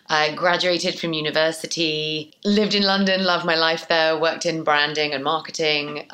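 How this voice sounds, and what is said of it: British accent. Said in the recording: “My background is British, mainly, as you can tell by the accent”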